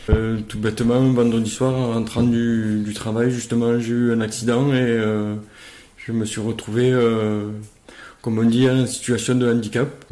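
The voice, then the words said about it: Southern French accent. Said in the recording (French): “tu es du sud de la France. Oui, comme vous pouvez entendre à mon accent, je suis originaire du sud de la France, vers Montpellier.”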